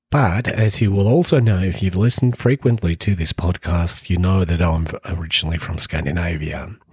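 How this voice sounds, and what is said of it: Australian-tinged accent. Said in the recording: “As you might have gathered from my accent, I have spent some time there, more accurately in Brisbane”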